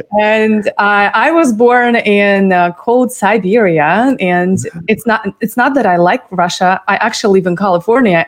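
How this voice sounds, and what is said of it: Russian accent. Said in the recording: “a cute accent from Russia”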